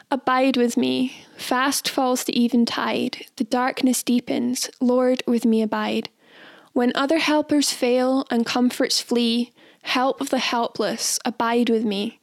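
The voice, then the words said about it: Beatnik poetry-reading voice. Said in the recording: “I'm going to read it like a poem. I'm not going to sing it. ... Do my beatnik poem impression.”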